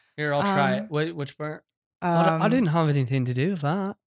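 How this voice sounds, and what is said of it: Usual voice. Nothing is said of it.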